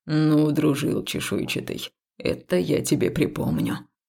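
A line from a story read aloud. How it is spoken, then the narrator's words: Reaper's grumble. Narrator (Russian): проворчал жнец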